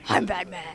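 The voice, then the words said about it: Terrible Adam West Batman impression. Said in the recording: “the impersonation ... It's terrible, I know.”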